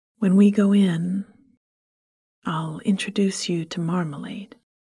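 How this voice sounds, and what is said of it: Low, quiet voice. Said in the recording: “in a low voice”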